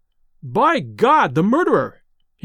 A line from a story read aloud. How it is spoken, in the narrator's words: he cried